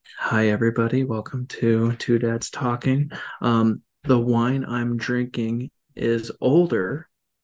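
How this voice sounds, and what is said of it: Dry public-radio announcer voice. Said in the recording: “my NPR voice ... the NPR voice, as we've discussed before, is just all about classical music and throwing shade on people very dryly”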